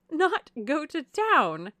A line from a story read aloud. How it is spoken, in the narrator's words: cried Mrs